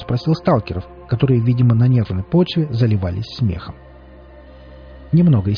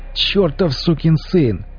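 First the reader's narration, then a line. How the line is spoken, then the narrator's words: Laughing exclamation. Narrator (Russian): хохоча воскликнул нищий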